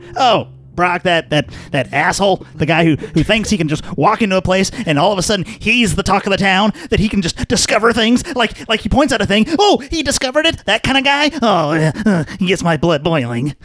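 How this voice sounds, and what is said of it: Puppet character voice. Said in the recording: “is doing his voice.”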